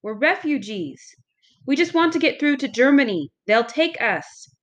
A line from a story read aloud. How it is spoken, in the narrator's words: cried